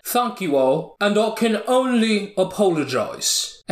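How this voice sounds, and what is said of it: Put-on British accent. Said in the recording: “he asked me to do it in a British accent.”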